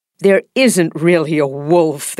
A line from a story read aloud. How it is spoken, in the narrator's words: they said, laughing